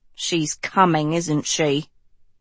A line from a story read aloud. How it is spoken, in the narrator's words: Hester mumbled